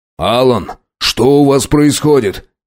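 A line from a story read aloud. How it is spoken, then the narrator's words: Shout. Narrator (Russian): крикнул Касатонов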